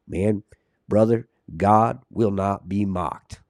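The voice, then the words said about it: Put-on Southern accent impression. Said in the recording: “with that southern accent, he's like ... I can never do a good Jeff”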